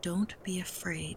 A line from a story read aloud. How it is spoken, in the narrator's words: Tutu said quietly